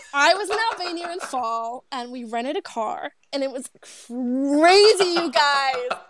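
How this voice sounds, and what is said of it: Put-on American accent. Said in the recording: “I could do this whole podcast in an American accent”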